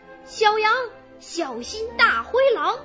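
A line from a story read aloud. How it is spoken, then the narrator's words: Hurried shout. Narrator (Chinese): 橘子老虎忙喊道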